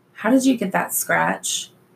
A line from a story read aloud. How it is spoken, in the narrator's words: Jason sighed